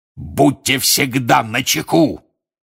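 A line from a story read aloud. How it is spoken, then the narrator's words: Roaring. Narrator (Russian): взревел он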